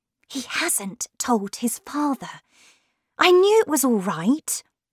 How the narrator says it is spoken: whispered

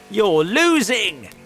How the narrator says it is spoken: he shouted

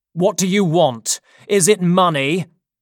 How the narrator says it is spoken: Roper was shouting

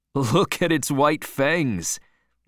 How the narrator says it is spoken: laughed the man

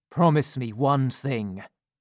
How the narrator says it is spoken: said Harry

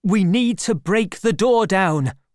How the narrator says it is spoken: shouted

